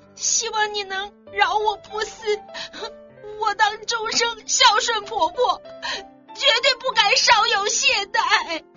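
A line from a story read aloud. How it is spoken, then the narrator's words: Terrified tearful pleading woman. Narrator (Chinese): 媳妇听了吓得发抖，哭倒在地，向丈夫拜求说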